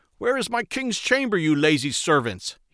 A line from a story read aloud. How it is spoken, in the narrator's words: he shouted in anger